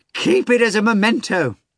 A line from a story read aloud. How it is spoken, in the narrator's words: Fagot cried